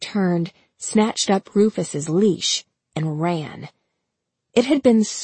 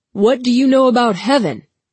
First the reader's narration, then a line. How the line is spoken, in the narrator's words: the man shouted to her